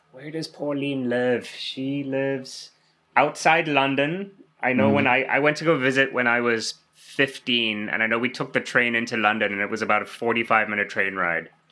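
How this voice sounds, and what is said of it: Slight South African accent. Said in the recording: “I'm from South Africa originally ... You got an accent. I like that. ... Yeah, a little bit of one, yeah. ... the accent won't go ... people here think I'm from just the eastern part of Canada because they sound a little Irish over there ... So I get Irish or Newfoundland all the time”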